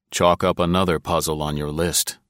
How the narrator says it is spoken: he said dryly

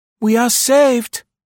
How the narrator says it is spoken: exclaimed Marie with irony

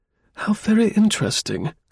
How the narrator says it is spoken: cooed Mrs

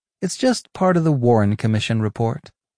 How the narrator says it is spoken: Kilgallen calmly replied

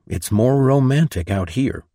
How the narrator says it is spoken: sigh

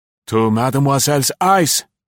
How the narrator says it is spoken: he cried

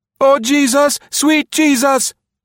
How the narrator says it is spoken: he shouted in English

